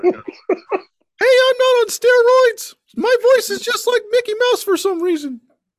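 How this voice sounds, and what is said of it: High squeaky wrestler impression. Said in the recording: “He sounds like Scott Steiner's brother ... He sounded like Mickey Mouse”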